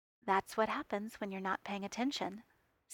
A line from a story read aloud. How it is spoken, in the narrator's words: Steve said in an undertone